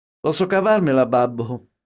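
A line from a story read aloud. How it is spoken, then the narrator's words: Laughing. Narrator (Italian): disse ridendo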